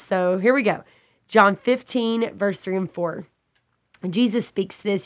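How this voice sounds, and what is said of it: Raspy, congested voice. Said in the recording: “my voice sounds a little raspy today ... it brought a little congestion for me”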